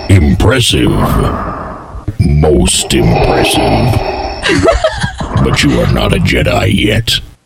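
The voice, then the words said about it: Darth Vader impression. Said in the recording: “Is that a good Darth Vader impression? ... That's pretty good.”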